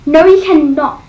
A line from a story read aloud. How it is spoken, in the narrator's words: she snapped